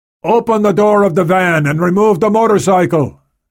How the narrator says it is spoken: he shouted

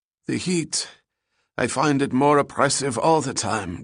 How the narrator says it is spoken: Gutzman said, gasping from the walk to the front door

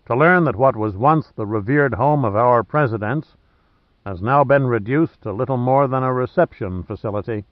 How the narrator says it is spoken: said Sandecker solemnly

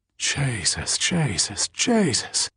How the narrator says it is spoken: breathed Tommy

